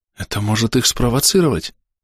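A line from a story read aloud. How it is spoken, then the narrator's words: Frightened whisper. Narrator (Russian): испуганным шепотом сказала Дрика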